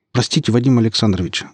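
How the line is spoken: Rapid chatter, two voices. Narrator (Russian): затараторили оба

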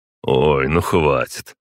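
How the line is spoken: Snorting. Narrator (Russian): хмыкнул я

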